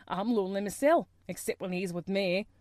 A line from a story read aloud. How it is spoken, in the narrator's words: he added with a surly chuckle